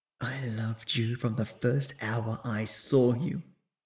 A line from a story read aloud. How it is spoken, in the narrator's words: She whispered into his ear